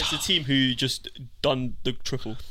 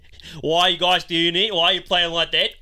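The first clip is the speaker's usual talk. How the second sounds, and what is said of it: Put-on Australian accent. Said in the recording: “You got to do it in the Australian accent.”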